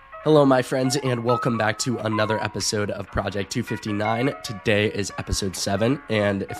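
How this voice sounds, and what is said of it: Slightly sick voice from a cold. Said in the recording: “I sound a little sick ... I'm dealing with a little bit of a cold”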